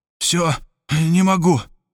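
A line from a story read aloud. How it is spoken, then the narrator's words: Exhausted groan. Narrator (Russian): спотыкаясь от усталости, простонал Хосе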